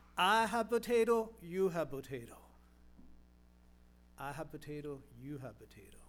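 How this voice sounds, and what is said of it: Imitated Polish accent. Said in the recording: “his Polish voice, Polish accent”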